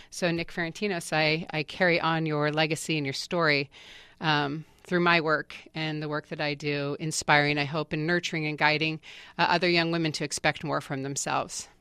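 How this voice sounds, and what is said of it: Choked-up, emotional voice. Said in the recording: “I don't know why I'm getting choked up. I thought I'd cried it out on Saturday.”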